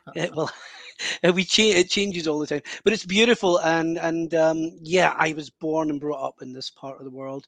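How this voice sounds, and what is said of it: West of Scotland accent. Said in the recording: “explain the accent to your American audience ... I am in the west of Scotland, on the west coast”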